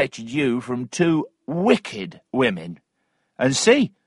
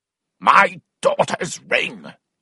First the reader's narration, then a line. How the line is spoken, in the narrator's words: shouted Weston